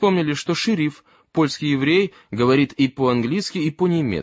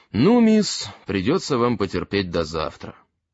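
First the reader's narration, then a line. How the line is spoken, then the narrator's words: Calm. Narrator (Russian): Ганс сказал спокойно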